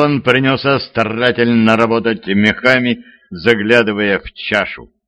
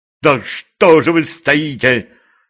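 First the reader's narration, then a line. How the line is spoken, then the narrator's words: Irritated interruption. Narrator (Russian): Раздраженно перебил алхимик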